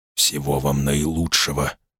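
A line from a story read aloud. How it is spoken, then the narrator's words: Whisper. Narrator (Russian): прошептал он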